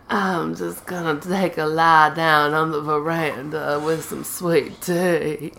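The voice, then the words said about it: Sick, under-the-weather voice. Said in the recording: “I'm a little under the weather, guys, so I'm sorry if my voice is annoying... a little under the weather. She sounds like Sandy Harling.”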